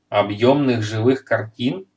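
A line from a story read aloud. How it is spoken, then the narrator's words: Plain. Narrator (Russian): спросил Майгин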